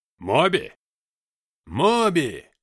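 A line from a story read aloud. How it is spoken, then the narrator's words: Group yelling. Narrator (Russian): завопили они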